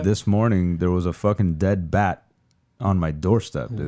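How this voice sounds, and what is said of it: Hoarse, strained voice. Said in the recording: “I'm losing my voice. This well, doesn't sound like”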